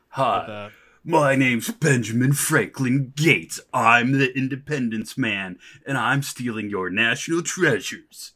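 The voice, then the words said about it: Nicolas Cage impression. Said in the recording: “That was my impersonation.”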